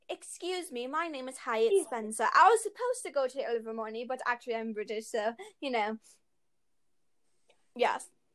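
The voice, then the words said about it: Fake British accent. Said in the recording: “fake a British accent”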